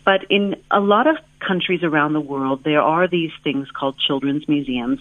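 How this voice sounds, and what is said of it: American accent. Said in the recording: “you might be able to tell from my accent. I'm originally from the United States, and I grew up in a small town outside of Seattle”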